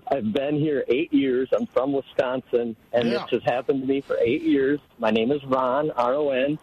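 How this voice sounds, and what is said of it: Northern US accent. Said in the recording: “my northern accent”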